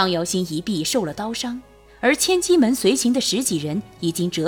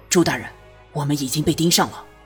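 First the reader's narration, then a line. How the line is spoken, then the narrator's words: Low voice. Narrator (Chinese): 张瑶星 低声道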